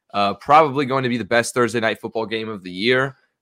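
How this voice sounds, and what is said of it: Sarcastic tone. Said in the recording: “I'm completely being sarcastic.”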